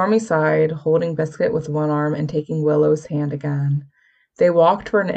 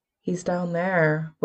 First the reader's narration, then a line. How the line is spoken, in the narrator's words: Willow said calmly